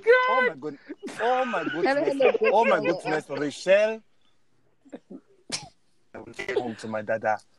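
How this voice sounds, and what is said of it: Exaggerated put-on Nigerian accent. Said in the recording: “y'all Nigerian accents are horrible”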